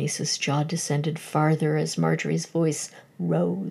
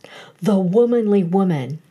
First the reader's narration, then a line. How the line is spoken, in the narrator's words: cried Marjorie